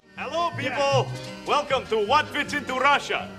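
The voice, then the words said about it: Bad put-on Russian accent. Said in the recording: “putting on a bad Russian accent”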